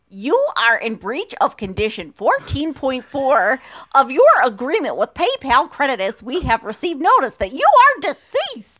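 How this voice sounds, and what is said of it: Exaggerated American accent. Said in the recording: “I have the most American accent ever, but I'm going to be super American about this.”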